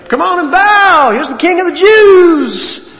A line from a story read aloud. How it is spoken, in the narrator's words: ridiculing him, mocking him, saying